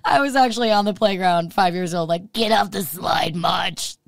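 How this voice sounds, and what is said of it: Raspy, smoker-like voice. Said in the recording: “Has your voice always sounded like this? Like a smoker? ... My voice has always been a little raspy”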